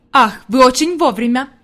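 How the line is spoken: Exclaiming. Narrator (Russian): воскликнул господин Сесман

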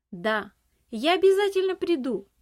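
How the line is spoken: Shout while running. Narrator (Russian): Уже на бегу крикнул он

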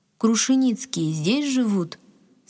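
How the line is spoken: Plain. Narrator (Russian): спросил Василий Тимофеевич

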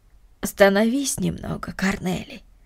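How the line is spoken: Gentle female voice. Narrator (Russian): ласково сказала Марта

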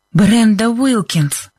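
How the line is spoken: Breathless. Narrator (Russian): выдохнула Либби

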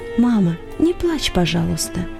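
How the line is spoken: Whisper in the ear. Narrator (Russian): шепнул ей на ухо

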